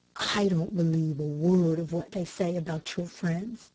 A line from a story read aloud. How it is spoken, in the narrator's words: said Cameron to Dick in a low tone